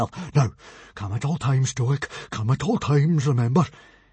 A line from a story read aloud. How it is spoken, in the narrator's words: he muttered